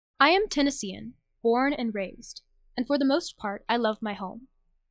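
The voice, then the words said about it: Southern Tennessee accent. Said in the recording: “I'm from Nashville, Tennessee, and I have an accent. ... The Southern drawl”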